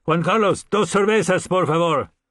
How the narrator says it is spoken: he shouted

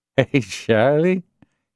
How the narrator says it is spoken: he said with slurred speech smiling

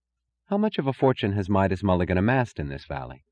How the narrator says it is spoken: she asked, in the tone of a dryly statistical inquiry

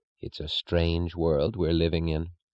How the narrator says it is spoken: said the spinster, her voice low

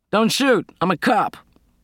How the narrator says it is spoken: came a shout from the dark car

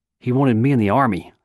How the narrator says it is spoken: Silo said

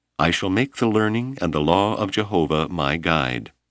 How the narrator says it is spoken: In her sweet, resonant voice, Noelani replied

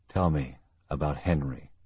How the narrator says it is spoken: Kelly said softly

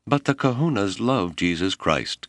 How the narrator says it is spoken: Kelolo cried

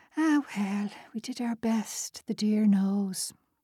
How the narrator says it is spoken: Then she gave a little sigh and said

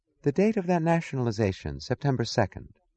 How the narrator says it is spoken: she asked, her voice wistful

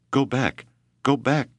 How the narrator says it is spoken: Keoki pleaded in Hawaiian

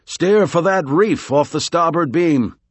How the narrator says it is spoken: shouted

